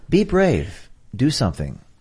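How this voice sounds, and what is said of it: Calm NPR radio host voice. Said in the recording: “Here's my NPR voice.”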